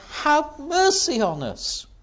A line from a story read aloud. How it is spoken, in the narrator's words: they cried out